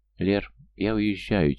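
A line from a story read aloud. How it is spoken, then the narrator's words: Quiet woman. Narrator (Russian): тихо проговорила она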